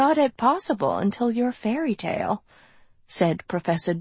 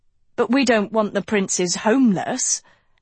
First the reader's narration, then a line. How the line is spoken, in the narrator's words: Agatha cried